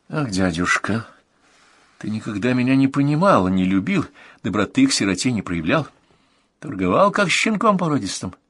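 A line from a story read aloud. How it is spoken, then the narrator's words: Heavy sigh. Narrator (Russian): тяжко вздохнула молодая правительница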